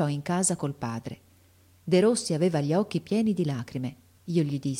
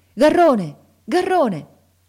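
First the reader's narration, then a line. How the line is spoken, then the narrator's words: Shouting. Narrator (Italian): lo sentimmo gridare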